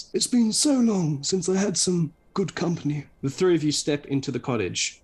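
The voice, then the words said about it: Friendly old man's voice. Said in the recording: “the old man says in a friendly voice.”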